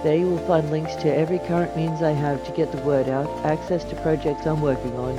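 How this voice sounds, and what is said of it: Semi-Australian accent. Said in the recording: “the melodious sound of my voice ... a semi-Australian accent”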